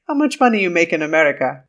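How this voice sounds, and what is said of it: Put-on accent, admittedly poor. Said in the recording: “Sorry for my terrible accent.”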